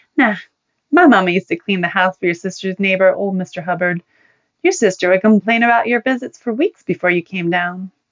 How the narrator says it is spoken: Joni laughed and said

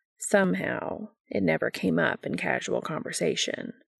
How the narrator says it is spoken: he says dryly

